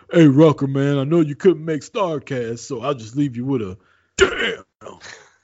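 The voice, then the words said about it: Imitates another person's voice. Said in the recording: “Was that a good impersonation... No, it was pretty pretty good. It was pretty solid.”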